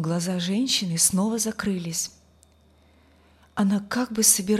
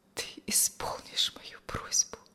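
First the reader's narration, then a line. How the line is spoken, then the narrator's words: Whispered. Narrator (Russian): шепнула она через некоторое время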